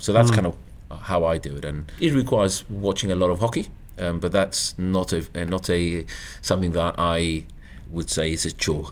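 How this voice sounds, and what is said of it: Gibraltarian accent, slight South African twang. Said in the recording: “I've really enjoyed listening to your accent as well. You mentioned you're from Gibraltar, but do I pick up a bit of South Africa in there as well? ... I've been called South African and I've been called Welsh ... a bit of a sing to it or a bit of a South African twang”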